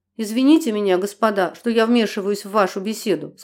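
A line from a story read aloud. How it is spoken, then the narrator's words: Plain. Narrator (Russian): сказал он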